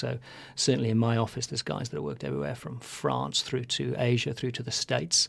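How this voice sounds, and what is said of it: Flat UK accent. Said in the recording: “I have a bit of a UK accent, I think it's quite flat, mainly because I've lived the last 20 years in South Africa”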